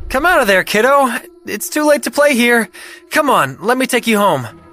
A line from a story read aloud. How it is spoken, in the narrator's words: yelled